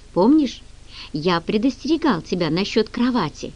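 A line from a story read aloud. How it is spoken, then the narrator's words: Whisper. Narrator (Russian): прошептал он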